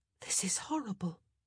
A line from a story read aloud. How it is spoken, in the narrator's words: Penelope whispered